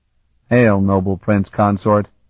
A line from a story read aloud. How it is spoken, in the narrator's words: Kaltan said dryly